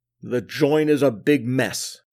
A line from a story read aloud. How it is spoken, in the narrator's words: growled the fire chief